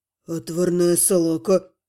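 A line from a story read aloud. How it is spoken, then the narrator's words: Werewolf's grumble. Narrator (Russian): буркнул оборотень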